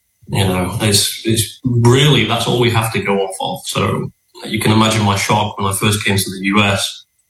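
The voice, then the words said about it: British accent. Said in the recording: “I don't know if you guys like British accent, but it just seems to set with me.”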